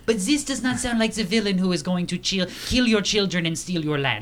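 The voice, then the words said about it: Soft, non-menacing put-on French accent. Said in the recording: “kind of French-German? ... It is not French-German ... This just does not sound wicked enough. It does not sound menacing. This sounds like I need to read you the wine list ... now I am in the mood for having the French accent, even when we soften it”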